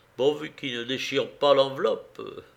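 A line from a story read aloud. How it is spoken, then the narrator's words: Grumbled. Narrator (French): grommela le Parisien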